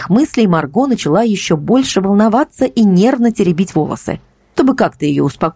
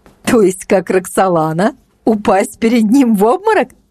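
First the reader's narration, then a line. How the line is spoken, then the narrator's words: Laughing. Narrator (Russian): рассмеялась она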